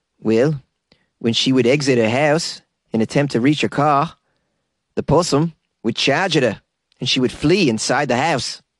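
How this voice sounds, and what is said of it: Poor put-on New Zealand accent. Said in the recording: “here's where I attempt to do a crappy New Zealand accent.”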